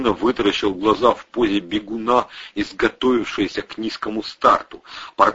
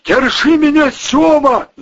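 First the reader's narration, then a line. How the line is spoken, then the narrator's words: Yelling. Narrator (Russian): завопил Вовчик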